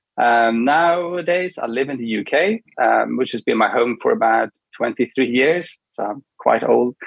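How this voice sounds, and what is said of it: Swedish-accented English. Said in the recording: “originally from Sweden, hence why I got this accent.”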